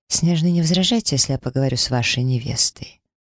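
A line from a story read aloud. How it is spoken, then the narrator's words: Declared. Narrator (Russian): заявил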